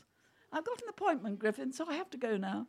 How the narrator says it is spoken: said in a polite voice

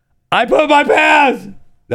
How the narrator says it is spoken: she yelled to her friends

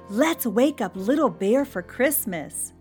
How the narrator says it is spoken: Bunny Rabbit cried

